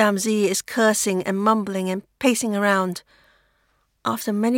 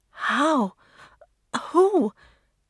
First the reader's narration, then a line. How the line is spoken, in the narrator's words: Mei-Lin stutters